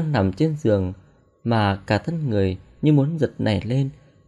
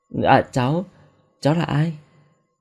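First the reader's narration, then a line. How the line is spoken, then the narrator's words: Trembling voice. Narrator (Vietnamese): Tôi run rẩy nói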